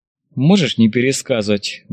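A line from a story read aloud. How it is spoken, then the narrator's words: Snorting, amused. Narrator (Russian): батальон хмыкнул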